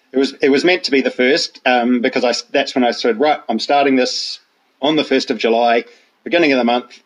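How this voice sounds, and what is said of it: New Zealand accent. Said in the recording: “it doesn't sound like a regional UK accent that you've got ... I'm originally from New Zealand.”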